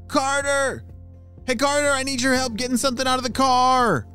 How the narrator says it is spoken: shouted one of his parents

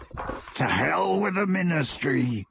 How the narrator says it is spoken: growled Greyback

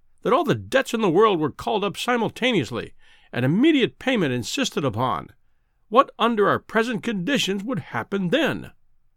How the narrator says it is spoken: he cried, with feeble violence

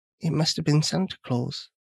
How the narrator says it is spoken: whispered Brad

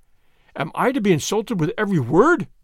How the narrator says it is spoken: cried

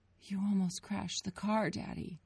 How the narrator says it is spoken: Grace whimpered

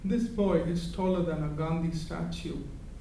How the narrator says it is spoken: she had said with a sad chuckle

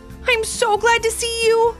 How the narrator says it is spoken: shouted Alice

